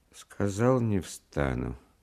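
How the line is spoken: Flat, detached voice. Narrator (Russian): повторил он каким-то чужим, бесстрастным голосом

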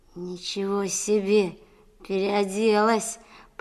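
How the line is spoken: Drawled. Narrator (Russian): протянул Колька

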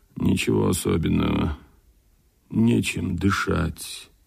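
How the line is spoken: Quiet conspiratorial ordinary voice. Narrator (Russian): Гаврилов обыкновенным голосом, тоже тихо, заговорщицки, ответил

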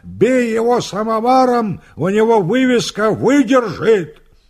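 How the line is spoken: Laughing wild bellow. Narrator (Russian): гармонист смеется и орет дурным голосом

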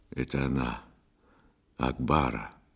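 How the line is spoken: Sleep-hoarse voice. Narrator (Russian): охрипшим со сна голосом проговорил Бастон

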